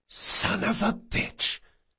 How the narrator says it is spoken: he hissed

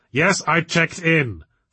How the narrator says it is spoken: snapped Victor

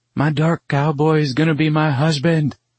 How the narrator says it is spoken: Caroline shouts

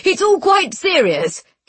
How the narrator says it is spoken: he said, though he was laughing too

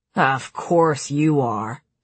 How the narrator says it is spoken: Cassian grumbled

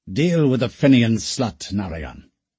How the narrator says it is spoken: the Englishman snapped

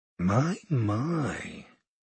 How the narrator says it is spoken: she said quietly

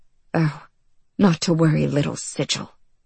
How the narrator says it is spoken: she muttered

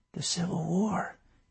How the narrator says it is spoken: he whispered

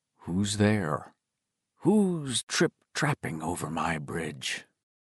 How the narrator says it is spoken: the fat man muttering

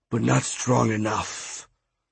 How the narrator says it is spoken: a pooch hissed

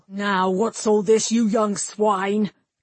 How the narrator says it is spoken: Cainrith snarled

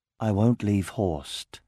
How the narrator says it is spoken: said Elaine calmly

